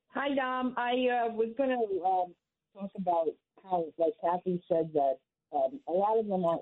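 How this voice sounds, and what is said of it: Muffled voice over speakerphone. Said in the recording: “you sound muffled ... if you're on speaker, it's muffled”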